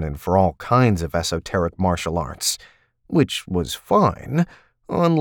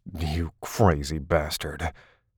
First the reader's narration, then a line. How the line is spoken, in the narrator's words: he muttered into Taylor's hair